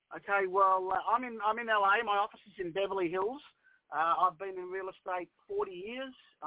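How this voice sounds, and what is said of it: Australian accent. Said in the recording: “I'm Australian, as you can tell. Can you tell the accent?”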